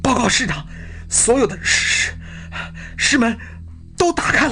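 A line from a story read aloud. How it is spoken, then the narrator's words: Breathless report. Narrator (Chinese): 索开派来报告情况的士兵跑来了，他累得脸红极了，气喘吁吁地报告说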